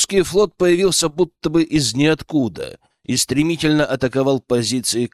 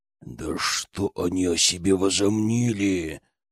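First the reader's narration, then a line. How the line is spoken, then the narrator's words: Growling. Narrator (Russian): рычал он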